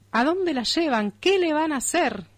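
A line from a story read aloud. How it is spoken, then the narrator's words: Shouting, old man. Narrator (Spanish): gritaba mi viejo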